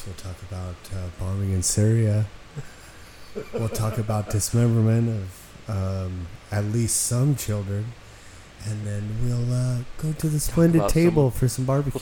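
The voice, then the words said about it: Mock melancholy radio voice. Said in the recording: “We're going to talk in this melancholy voice.”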